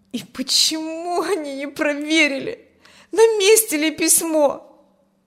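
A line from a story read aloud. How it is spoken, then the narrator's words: Said plaintively. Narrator (Russian): Жалобно сказал Петя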